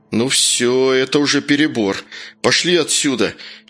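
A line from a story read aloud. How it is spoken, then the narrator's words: Groan. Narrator (Russian): простонал Вася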